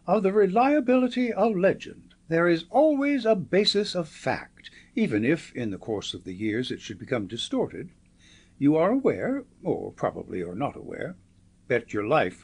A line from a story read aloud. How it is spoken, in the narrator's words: said Marco in his high, neighing voice, and in the tones of one addressing a large class